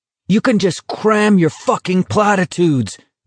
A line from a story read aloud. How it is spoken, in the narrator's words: Garrity shouted